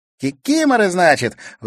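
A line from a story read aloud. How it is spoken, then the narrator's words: Girl's delighted exclamation. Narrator (Russian): восхищенно воскликнула девушка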